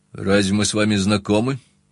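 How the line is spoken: Cold objection. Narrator (Russian): холодно возразил я

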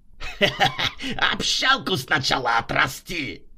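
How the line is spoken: Mocking laughter. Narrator (Russian): захохотала Рутюнян

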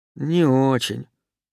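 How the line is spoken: Glum reply. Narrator (Russian): уныло ответил король медвежатников

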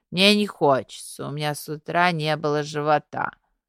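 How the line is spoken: Feigned weak voice. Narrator (Russian): нарочито слабеньким голосом отозвалась Лея

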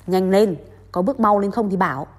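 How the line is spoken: Growling. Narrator (Vietnamese): phù thủy gầm gừ

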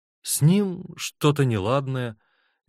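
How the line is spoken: Uncertain. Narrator (Russian): неуверенно ответила Рита на недоуменный взгляд Давида

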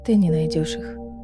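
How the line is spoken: Quiet. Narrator (Russian): тихо сказала Манона

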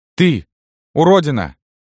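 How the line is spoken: Shouting. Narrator (Russian): крикнула она Иоанну Маркианычу

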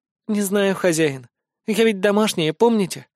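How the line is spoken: Timid, smiling elf. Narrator (Russian): Робко улыбнулась эльфийка

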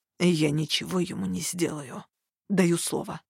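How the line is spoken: Strained croak. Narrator (Russian): С трудом преодолев сковавшее тело оцепенение, я прохрипел

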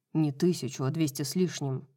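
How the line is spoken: Muttered. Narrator (Russian): пробормотал Хант

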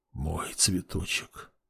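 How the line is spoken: Whisper. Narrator (Russian): прошептал он

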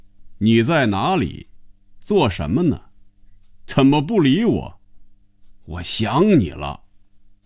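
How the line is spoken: Loud reading aloud. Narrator (Chinese): 开始大声念着

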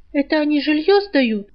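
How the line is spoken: Realizing aloud. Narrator (Russian): сообразила

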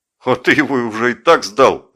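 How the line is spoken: Joyful laughter. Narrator (Russian): радостно засмеялся Жеглов

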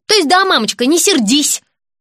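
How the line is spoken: Yelling. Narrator (Russian): заорал

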